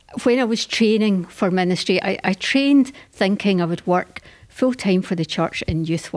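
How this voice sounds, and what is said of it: Scottish accent. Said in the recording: “You've got a beautiful accent ... Home is South Ayrshire in Scotland”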